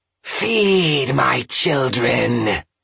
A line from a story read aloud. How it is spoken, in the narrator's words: hissed the Jorogumo